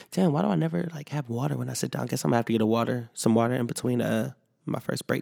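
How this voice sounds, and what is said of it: Weakened, partly lost voice. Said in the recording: “losing my voice ... I don't fully have my voice ... I have enough voice”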